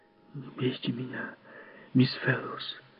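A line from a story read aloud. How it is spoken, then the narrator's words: Whispered. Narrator (Russian): прошептал он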